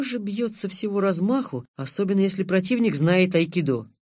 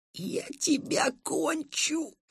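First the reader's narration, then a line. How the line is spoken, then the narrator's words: Menacing hiss. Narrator (Russian): Мой противник прошипел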